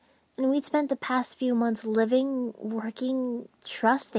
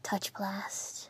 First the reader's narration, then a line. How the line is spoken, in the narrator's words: I breathed